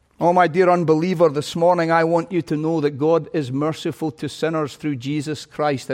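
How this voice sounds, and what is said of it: Scottish accent. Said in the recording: “this weak vessel with a Scottish accent.”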